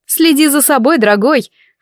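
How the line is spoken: Witch laughing. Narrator (Russian): засмеялась ведьма

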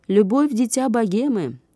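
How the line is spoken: Shrill, strained shout. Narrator (Russian): закричал резкий, надорванный голос

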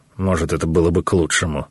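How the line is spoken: Grumbling. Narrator (Russian): буркнул Гаумата

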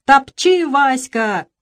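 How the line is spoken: Shouting. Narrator (Russian): кричал он

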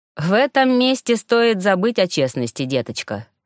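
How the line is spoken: Smirking snort. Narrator (Russian): хмыкнул Локридж

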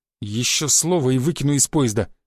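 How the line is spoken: Through gritted teeth. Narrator (Russian): процедил Шишаков

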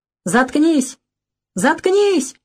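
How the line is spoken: Yelling. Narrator (Russian): вопит Серый

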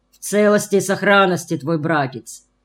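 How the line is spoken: Joyful booming voice. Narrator (Russian): прогудел Иван Матвеевич, радостно

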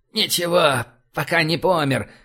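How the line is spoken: Hoarse reply. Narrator (Russian): прохрипел он в ответ

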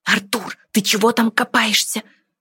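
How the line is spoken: Whisper. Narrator (Russian): прошептала Диана

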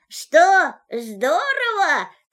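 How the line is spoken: Shouted from high above. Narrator (Russian): крикнул ему из поднебесья Винни-Пух

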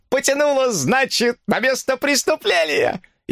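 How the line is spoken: Loud laughter. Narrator (Russian): она громко расхохоталась

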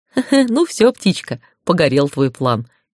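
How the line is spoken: Giggle. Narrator (Russian): хихикнул Аркус

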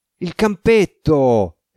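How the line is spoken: Exclaimed. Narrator (Italian): esclamò Diossido

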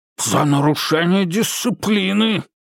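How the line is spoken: Barked. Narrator (Russian): рявкнул Афанасий

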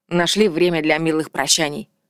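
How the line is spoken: Snorting. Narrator (Russian): фыркнул Вальдекрис

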